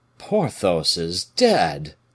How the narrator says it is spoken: cried he

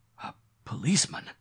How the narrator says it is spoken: gasped Mr

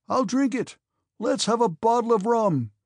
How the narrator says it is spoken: shouted Pierre, with a determined and drunken gesture

